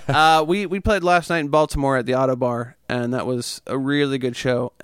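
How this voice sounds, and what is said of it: Slightly raw, hoarse voice. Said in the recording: “my voice is a little raw from it.”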